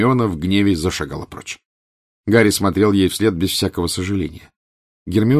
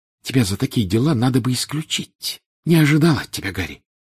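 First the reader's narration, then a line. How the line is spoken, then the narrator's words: Hissing close to ear. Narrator (Russian): Наклонившись к уху Гарри, она зашипела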